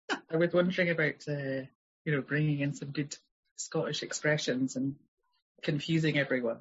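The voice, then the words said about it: Scottish accent. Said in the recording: “she's got an amazing accent”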